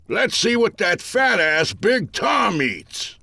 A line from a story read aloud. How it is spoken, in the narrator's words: an old-timer cried